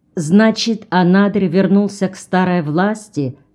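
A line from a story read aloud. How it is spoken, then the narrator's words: Plain question. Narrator (Russian): спросил Джон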